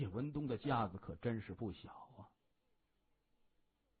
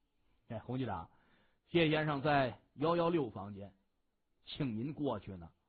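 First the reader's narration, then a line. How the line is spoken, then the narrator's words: Smiling man. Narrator (Chinese): 那个汉子对洪尚斌笑着说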